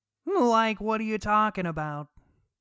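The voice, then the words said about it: Cartoon character voice impression. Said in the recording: “your Shaggy impersonation”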